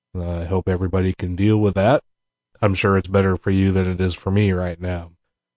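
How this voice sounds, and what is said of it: Sick, under-the-weather voice. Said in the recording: “My voice is a little bit under the weather right now”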